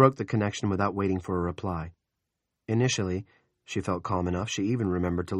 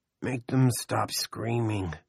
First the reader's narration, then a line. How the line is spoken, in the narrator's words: Benny groaned